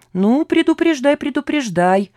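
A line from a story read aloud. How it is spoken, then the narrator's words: Irritated permission. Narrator (Russian): разрешил он раздраженно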